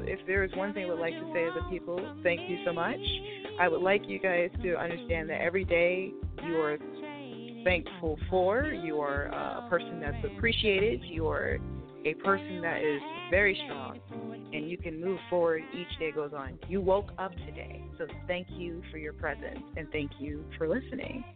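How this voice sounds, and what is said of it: Radio announcer style voice. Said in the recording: “You got the radio voice.”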